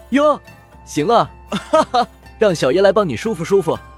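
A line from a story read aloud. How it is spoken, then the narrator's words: Lewd leering laugh. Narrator (Chinese): 那刀疤男猥琐笑道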